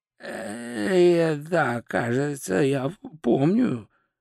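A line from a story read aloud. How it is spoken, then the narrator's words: Hoarse wizard. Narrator (Russian): прохрипел волшебник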